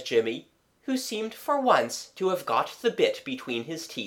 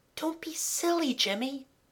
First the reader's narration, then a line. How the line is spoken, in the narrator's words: Kathleen whispered